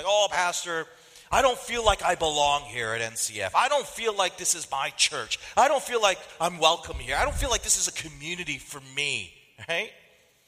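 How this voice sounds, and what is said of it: Annoyed tone of voice. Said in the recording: “if you could tell from the tone of my voice, I sound annoyed”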